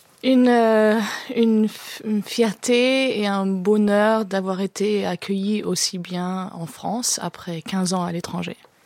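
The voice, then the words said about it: Slight German accent in French. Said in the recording (French): “Tout ce petit accent allemand”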